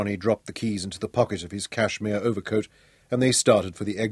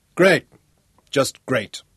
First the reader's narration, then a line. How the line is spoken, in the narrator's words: said Johnny bitterly